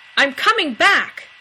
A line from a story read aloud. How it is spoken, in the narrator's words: Dean yelled at the closed door